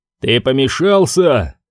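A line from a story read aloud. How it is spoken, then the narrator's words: Growled. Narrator (Russian): зарычал Рус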